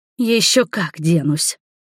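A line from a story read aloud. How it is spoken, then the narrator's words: Loud hissed whisper. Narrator (Russian): Громким шепотом процедила в ответ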